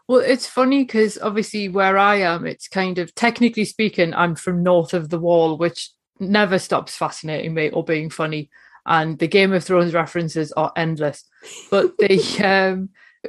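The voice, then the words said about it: Newcastle Geordie English accent. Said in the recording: “you have a great accent that some people might not recognize, which is from Newcastle in the northeast of England”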